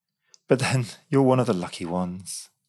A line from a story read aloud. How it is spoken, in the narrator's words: Elise sighed wistfully